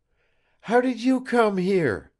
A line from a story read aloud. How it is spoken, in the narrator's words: gasped Eva